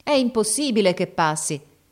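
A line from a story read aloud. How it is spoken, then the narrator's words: Crowd shouting from below. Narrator (Italian): gridava la folla di sotto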